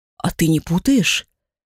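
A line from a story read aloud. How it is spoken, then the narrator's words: Uncertain, woman questioning. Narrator (Russian): Неуверенно переспросила собеседница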